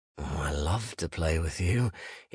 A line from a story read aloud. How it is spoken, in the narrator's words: he purred